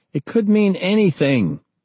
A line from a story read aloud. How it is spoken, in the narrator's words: Ernie snapped